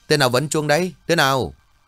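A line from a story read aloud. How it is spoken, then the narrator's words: Loud shout. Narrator (Vietnamese): anh lớn tiếng quát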